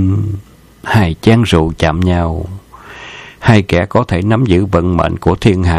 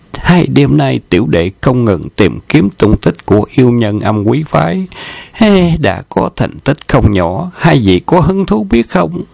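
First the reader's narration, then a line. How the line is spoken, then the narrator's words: Friendly, smiling voice. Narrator (Vietnamese): mỉm cười thân thiện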